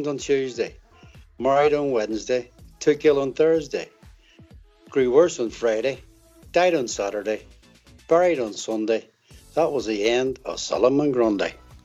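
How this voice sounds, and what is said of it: Belfast accent. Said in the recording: “the Belfast accent that he has”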